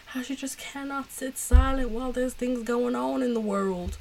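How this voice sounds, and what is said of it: Put-on country accent. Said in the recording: “That's my take on a country accent”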